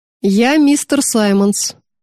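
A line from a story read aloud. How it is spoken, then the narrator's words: Bored voice. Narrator (Russian): скучающим голосом говорит вошедший врач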